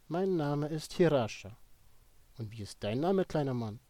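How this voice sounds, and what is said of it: German with a Slavic accent. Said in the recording (German): “Sie antwortete mir auf Deutsch mit slawischem Akzent”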